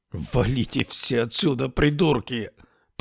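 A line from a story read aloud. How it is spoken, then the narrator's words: Young man growling. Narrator (Russian): прорычал молодой человек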